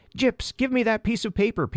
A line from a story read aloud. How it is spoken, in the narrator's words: Peter cried